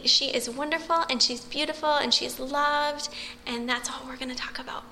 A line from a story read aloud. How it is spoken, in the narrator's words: She would say very sweetly